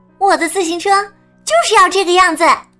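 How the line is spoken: Loud, decided. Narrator (Chinese): 兔子想了一会儿，打定了主意，大声说道

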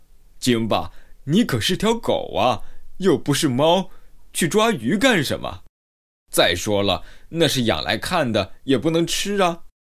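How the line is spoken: Amused chuckle. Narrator (Chinese): 科顿不禁哑然失笑 说道

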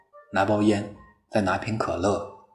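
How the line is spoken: Faint smile. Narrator (Chinese): 他总是嘴角淡淡的笑一下，然后说

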